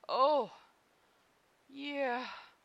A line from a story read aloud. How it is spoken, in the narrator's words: Sokka manages weakly